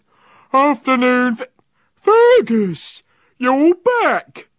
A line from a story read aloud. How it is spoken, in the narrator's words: cried Ned